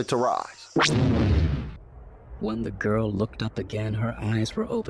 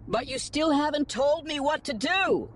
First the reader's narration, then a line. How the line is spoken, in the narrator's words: She shouted after him